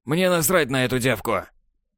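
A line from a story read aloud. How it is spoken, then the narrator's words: Harsh bark. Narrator (Russian): рявкнул Катала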